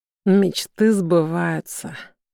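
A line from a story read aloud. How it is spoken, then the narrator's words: Quiet. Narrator (Russian): он тихо произносит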